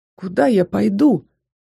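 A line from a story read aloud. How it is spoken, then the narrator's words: Breaking voice, near tears. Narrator (Russian): выдавила срывающимся голосом, стараясь не расплакаться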